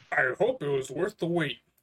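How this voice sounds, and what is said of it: Imitates another person's voice, poorly. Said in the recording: “that was meant to be a game Newell. I suck at doing his voice.”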